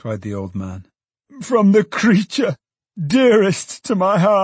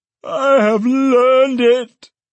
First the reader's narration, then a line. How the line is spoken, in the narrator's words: cried the old man